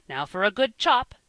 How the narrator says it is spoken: cried

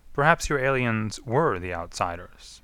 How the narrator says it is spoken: Malholm said

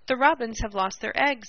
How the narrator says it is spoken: cried excitedly

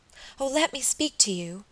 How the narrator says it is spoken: cried

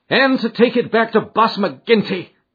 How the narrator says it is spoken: cried Morris bitterly

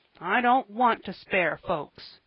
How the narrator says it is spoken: grumbled Joel

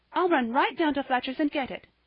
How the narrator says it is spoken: cried Polly

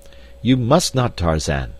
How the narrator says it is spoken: cried D'Arnot

